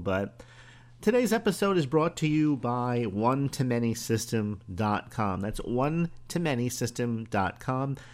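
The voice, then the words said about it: Slightly hoarse voice. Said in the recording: “I have a bit of a hoarse voice today”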